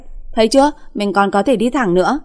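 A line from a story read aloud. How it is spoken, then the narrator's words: Tipsy yelling. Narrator (Vietnamese): Để chứng minh bản thân còn tỉnh táo, trong miệng la hét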